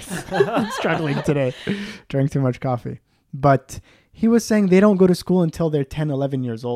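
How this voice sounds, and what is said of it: Usual voice. Nothing is said of it.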